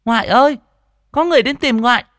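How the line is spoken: Child shouting. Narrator (Vietnamese): thằng bé hét lên

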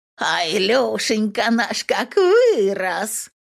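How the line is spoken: Hoarse, rasping. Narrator (Russian): Агнеса Марковна хрипит

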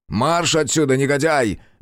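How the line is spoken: Angry bark. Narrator (Russian): рявкнул растерженный булочник

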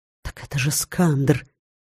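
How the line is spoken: Older lecturers whispering under breath. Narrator (Russian): Некоторые лекторы постарше, в основном бесстрашные мрагулы, шептали себе под нос

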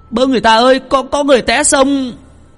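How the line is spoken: Yelling. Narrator (Vietnamese): Tùng la lên

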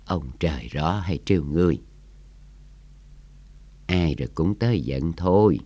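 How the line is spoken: Sighing old man. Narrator (Vietnamese): Lão thở dài

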